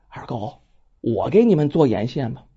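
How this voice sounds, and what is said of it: Quiet, hushed voice. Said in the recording (Chinese): “小声”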